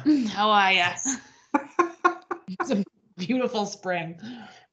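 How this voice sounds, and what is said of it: Put-on folksy accent. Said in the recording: “I knew there'd be an accent.”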